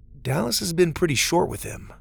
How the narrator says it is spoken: Doug said

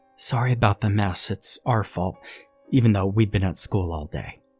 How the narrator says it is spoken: Mary whispered to me

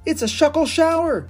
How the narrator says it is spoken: Ash cried

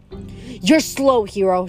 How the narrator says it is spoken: she laughed

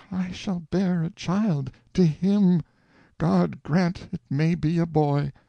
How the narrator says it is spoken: She moaned to herself

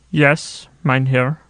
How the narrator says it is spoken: answered the prisoner

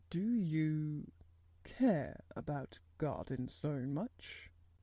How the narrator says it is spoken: he said slowly

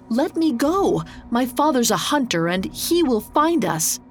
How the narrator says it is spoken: Arnok cried out

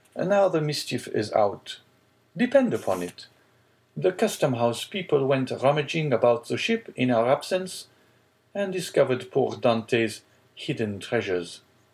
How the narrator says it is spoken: exclaimed Danglars

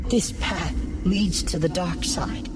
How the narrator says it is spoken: she said

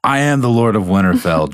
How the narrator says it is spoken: John screamed

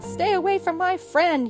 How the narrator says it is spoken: he shouted

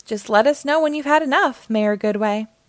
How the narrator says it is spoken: chuckled Mayor Humdinger

